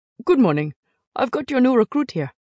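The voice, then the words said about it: Lilting British accent. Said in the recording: “He spoke in a lilting British accent”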